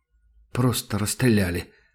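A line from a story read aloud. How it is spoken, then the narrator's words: Mumble. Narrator (Russian): пробормотал Сашка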